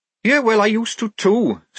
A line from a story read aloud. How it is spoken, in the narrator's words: snapped Tonker